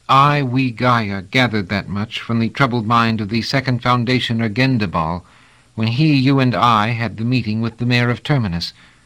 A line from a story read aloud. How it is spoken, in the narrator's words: said evenly